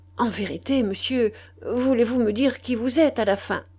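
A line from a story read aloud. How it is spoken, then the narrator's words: Stunned stammering. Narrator (French): Le commissaire de police stupéfait, et balbutiant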